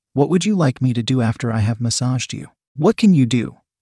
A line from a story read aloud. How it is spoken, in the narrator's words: Paul asked